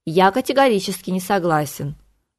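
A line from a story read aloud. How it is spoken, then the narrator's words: Flat, even voice. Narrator (Russian): ровным голосом сообщил Флавиус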